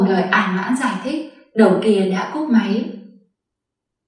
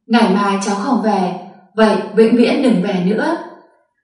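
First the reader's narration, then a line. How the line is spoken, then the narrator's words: Angry old man roaring. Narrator (Vietnamese): Ông cụ Thẩm tức giận gầm lên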